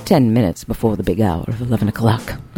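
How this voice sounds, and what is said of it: Radio DJ voice. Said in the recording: “That's my DJ voice.”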